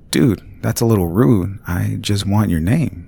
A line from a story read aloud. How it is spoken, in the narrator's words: I said